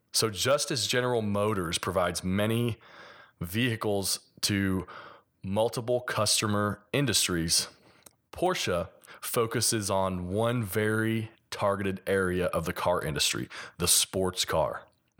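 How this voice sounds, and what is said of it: Slight Kentucky hillbilly accent. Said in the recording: “I'm from Kentucky, so a little bit of my hillbilly accent.”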